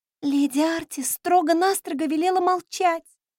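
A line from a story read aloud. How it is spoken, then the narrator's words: Moaning. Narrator (Russian): простонала Рай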